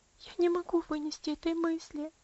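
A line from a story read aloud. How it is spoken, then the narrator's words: Sobbing. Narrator (Russian): рыдала Аделаид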